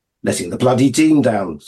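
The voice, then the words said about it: Mock middle-class English accent. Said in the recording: “said Jim in Roger's middle-class accent.”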